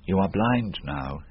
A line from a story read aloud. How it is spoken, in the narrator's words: he said